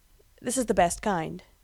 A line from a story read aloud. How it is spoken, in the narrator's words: he says